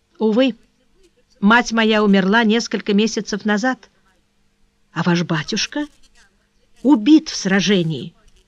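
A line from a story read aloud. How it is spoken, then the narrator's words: Agitated voice. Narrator (Russian): отвечала она взволнованным голосом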